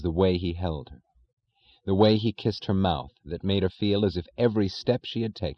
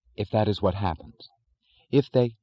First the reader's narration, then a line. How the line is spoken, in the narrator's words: said firmly